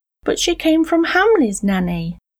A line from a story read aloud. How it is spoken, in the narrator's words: exclaimed the little girl her face crumbling into hot tears